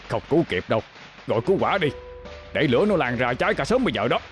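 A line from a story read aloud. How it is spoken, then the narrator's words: Urgent firm male shout. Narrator (Vietnamese): tiếng một người đàn ông hét lớn, gấp gáp mà dứt khoát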